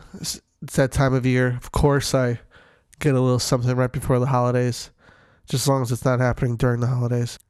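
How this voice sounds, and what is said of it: Sick-sounding voice. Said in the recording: “apologize for my voice. I'm a little sick”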